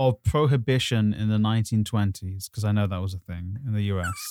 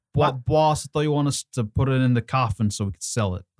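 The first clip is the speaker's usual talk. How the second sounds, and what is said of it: Put-on New York gangster accent. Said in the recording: “it's got to be New York style ... the accent”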